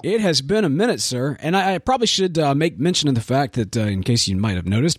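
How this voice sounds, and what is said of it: Rough, slightly hoarse voice. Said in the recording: “my voice sounds a little a little rough because I'm uh, I've been under the weather”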